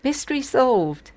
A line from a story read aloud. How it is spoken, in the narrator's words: he exclaimed proudly